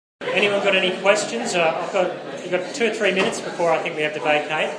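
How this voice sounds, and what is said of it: Strong Northern Irish accent. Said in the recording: “My accent... I'm from Northern Ireland... The more nervous I get, the more I sound Northern Irish. So today I was very Northern Irish.”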